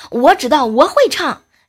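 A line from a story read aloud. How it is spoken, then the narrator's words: Loud shout. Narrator (Chinese): 我爸在旁边呃大喊一声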